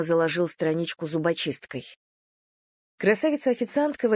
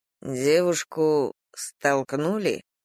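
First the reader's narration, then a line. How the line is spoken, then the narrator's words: Haughty drawl. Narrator (Russian): высокомерно протянул Дима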